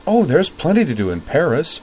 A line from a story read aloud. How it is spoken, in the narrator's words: said Azeline brightly